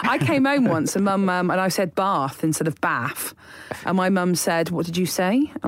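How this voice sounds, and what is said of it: Bristolian English accent. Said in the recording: “we were just all of us were Bristolian ... The school tried to beat the accent out of me, but I stayed”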